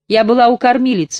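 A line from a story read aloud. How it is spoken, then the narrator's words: Calm explanation. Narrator (Russian): спокойно объяснила Семина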